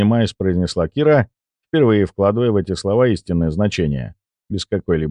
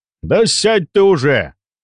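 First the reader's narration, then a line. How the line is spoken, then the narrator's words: Gruff shout, older man. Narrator (Russian): гаркнул немолодой мужчина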